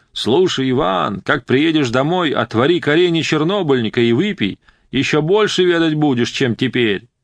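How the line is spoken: Shouted. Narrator (Russian): Тогда он крикнул

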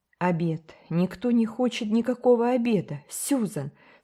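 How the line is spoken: Agitated. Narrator (Russian): сказала миссис Блайт взволнованно

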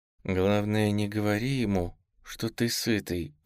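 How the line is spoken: Young woman through clenched teeth. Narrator (Russian): процедила сквозь зубы девушка

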